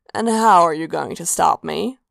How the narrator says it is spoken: Sanguine purred

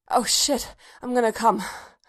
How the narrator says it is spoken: Bodhi gasped

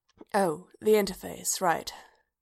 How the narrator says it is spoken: Bodhi murmured

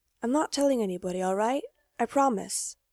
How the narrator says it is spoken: he whispers

